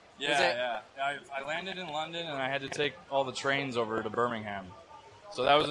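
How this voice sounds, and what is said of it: American accent. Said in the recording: “I got quite the American accent here, right?”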